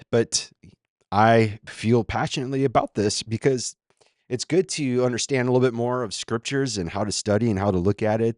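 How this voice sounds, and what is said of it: Shaky, unwell-sounding voice. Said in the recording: “my voice is still pretty shaky. Been battling an illness”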